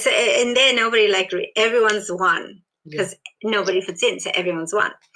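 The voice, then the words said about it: South African Indian accent, Australian-tinged. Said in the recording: “I've got this deep South African Indian accent ... now I've got the Australian accent mixed with all of that”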